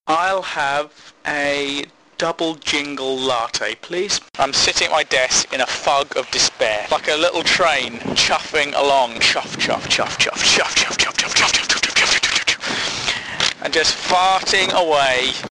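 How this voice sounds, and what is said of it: Put-on accent. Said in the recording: “Where did that accent come from?”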